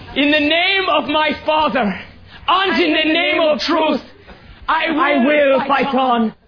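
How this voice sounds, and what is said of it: Put-on Irish accent. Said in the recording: “He's using an Irish accent to evoke sympathy. ... just use your normal strident tone, please.”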